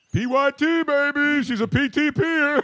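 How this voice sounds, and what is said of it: Imitates another person's voice. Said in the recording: “I'm doing my Dick Vitale impersonation.”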